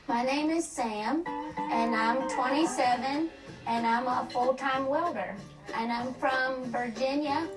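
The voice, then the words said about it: Strong Southern mountain accent. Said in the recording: “Mountain speak ... I think ... really has an accent. I have no idea what she's saying. ... I need subtitles.”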